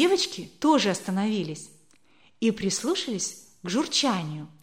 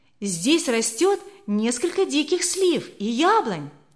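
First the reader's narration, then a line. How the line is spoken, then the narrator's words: Girl exclaiming. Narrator (Russian): воскликнула одна из девочек Алертон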